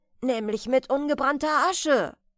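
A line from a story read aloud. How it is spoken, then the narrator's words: Merchant calling out. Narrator (German): rief der Kaufmann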